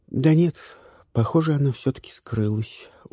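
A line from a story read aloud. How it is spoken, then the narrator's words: Tired. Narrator (Russian): устало сказала Каролина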